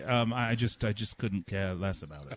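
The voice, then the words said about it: Foreign accent. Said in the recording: “your accent sounds like you're from over there somewhere”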